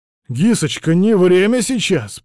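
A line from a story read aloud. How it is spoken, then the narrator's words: Desperate near-shout. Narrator (Russian): почти закричал Вильд, и голос его был полон отчаяния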